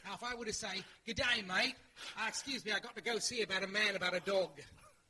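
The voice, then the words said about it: Put-on Australian accent. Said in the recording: “is great at doing a variety of accents ... demonstrate some accents ... Australia, that's right.”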